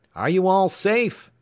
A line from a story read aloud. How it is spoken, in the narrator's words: Again came the clashing, incomprehensible shout